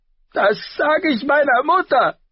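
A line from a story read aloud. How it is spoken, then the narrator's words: Shout. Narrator (German): schrie Joffrey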